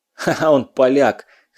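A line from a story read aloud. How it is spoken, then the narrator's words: Quick-witted short laugh. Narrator (Russian): хохотнул, нашелся Кузнецов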